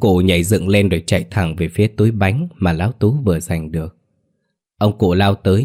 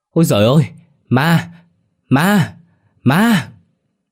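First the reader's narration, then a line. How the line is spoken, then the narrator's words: Terrified old man shrieking. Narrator (Vietnamese): ông cụ Giang giật bắn, rú lên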